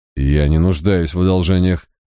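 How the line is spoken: Gruff mutter. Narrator (Russian): буркнул Барак

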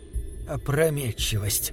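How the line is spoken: Muttering. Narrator (Russian): пробормотала она

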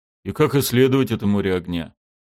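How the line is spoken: Sighing. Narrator (Russian): вздохнул Халкур

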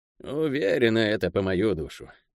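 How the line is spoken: Gloomy. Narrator (Russian): мрачно сказала она Ирелу

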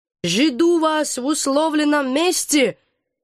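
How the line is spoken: Raven calling after. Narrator (Russian): крикнул вслед ворон

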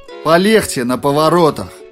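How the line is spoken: Shout. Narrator (Russian): закричал Джордж

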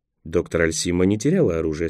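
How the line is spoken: Calm remark. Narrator (Russian): спокойно заметил Николас

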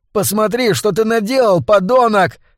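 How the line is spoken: Young man shouting. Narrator (Russian): кричал парень

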